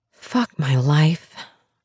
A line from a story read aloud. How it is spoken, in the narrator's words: I whisper into the glass door